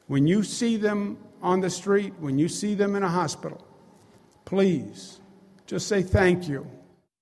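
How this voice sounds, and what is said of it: New York accent. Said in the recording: “you can tell he's from New York just by the way he speaks”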